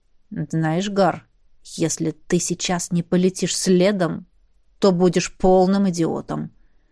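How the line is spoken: Quiet but clear. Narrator (Russian): тихо, но отчетливо подытожил Риан

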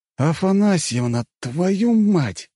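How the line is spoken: Furious hiss. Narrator (Russian): прошипел я, чувствуя, что при встрече оторву ей голову за предательство

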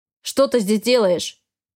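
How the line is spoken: Growling man. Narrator (Russian): рыкнул мужчина

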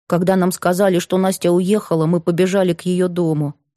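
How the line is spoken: Plain. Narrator (Russian): сказал Егор

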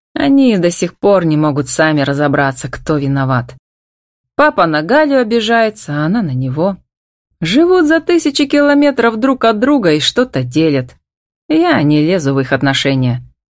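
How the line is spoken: Dismissive, cheerful. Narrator (Russian): отмахнулся он и обронил весело

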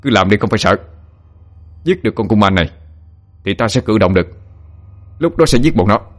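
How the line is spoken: Shout. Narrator (Vietnamese): Hạ quát lên

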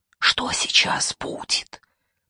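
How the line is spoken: Whisper. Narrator (Russian): прошептал

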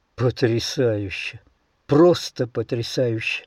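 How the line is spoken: Skeptical muttering to himself. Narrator (Russian): бормотал себе под нос скептически настроенный микробиолог

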